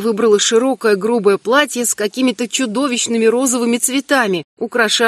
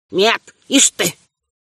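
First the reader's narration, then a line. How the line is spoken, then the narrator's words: Grandmother's resolute grumble. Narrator (Russian): бабушка решительно буркнула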